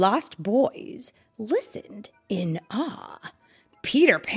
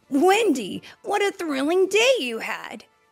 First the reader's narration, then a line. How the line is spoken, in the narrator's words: Peter exclaimed